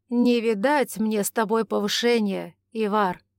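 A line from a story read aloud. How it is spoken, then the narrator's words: Good-natured grumble. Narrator (Russian): добродушно проворчал Матиас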